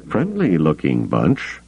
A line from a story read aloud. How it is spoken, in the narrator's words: he muttered to Luke